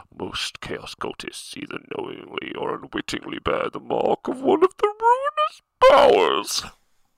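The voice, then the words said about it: Spooky narrator voice. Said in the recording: “do my scary voice? ... If anyone wants to hire me for voice acting”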